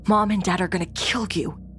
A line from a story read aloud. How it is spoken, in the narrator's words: whisper yelling, said